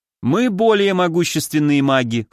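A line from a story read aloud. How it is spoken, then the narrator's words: Smirking snort. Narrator (Russian): хмыкнул я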